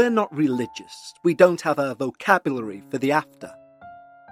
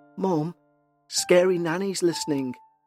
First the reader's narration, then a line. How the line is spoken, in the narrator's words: the twins whisper